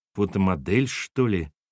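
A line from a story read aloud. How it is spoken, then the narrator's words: Mutter. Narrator (Russian): пробормотал Сергей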